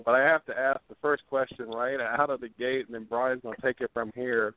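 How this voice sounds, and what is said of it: Strained, failing voice. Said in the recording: “I'm losing my voice and been sick ever since, like, Wednesday”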